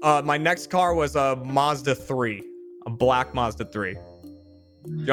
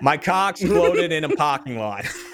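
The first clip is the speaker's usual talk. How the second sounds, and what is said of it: Heavy Boston accent. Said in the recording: “a line that you would say with a heavy Boston accent”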